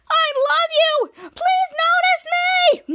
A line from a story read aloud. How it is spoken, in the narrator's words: Kid Danger, Schwaz, Jasper, Schwaz, Charlotte, and Captain Man screaming again